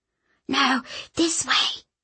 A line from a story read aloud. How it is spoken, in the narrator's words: Mary hissed